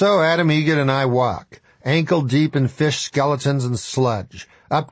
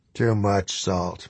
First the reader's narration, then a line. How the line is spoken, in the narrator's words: mutters the old man